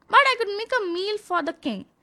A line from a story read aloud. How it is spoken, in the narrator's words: he cried